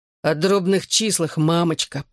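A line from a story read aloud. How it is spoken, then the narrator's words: Groan. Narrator (Russian): простонал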